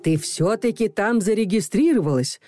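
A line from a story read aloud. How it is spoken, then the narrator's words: Desperate exclamation. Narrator (Russian): с отчаянием воскликнула Ирина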